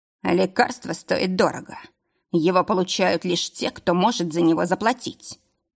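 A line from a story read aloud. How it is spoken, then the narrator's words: Words through gritted teeth. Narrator (Russian): процедил Нейт Лейн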